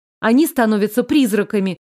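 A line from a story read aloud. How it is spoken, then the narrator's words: Sharp confused snort. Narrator (Russian): Резко фыркнула, окончательно потеряв нить разговора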